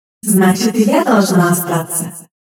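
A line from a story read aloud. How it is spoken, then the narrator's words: Laughing. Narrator (Russian): Засмеялась Ава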